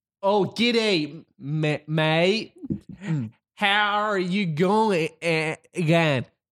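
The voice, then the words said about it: American attempting an Australian accent. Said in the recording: “this is my impression of an American doing an Australian accent ... That was good.”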